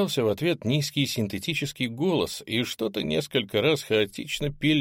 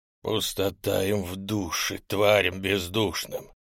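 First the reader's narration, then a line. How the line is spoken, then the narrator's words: Displeased wheeze. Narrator (Russian): Недовольно просипел гуманоид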